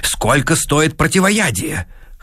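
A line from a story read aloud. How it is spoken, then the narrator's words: Hoarse question. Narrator (Russian): хрипло спросил Сэнгстрем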